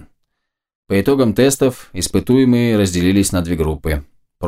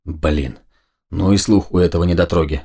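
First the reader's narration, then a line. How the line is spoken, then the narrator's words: Very quiet whispered mutter. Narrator (Russian): совсем уж шепотом пробормотал Макс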